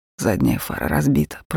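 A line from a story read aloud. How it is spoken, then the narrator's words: Muttered. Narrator (Russian): пробормотал он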